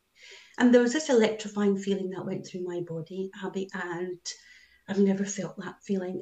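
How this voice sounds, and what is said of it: Scottish-English accent. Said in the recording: “In my English, Scottish twang”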